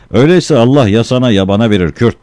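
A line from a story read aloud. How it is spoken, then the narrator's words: Shouting. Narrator (Turkish): diye bağırdı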